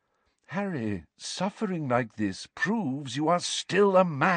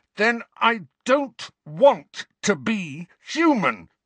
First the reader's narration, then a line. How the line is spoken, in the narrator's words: Harry roared